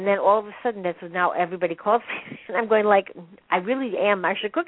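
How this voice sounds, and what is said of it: Noticeable charming regional accent. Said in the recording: “your accent is cracking me up ... It's there. Trust me. It's charming.”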